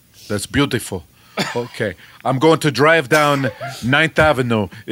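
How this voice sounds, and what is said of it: Put-on deep Brooklyn accent. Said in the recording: “We all need to sound deep Brooklyn ... this feels more like the real New York than any accent”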